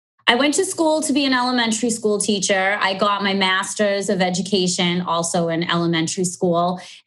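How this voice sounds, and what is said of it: Strong Boston accent. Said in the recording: “I do have a strong Boston accent. Everybody comments on it when I speak.”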